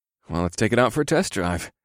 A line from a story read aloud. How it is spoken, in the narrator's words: I muttered to myself